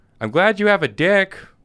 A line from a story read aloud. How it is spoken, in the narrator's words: she just yells out